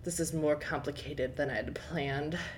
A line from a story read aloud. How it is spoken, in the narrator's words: he murmured to himself